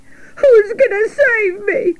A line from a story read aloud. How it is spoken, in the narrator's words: cried Wilbur